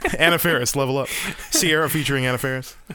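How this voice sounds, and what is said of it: Sung imitation of another person's voice. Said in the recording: “my Anna Faris impression, singing Level Up ... Oh, that's pretty good.”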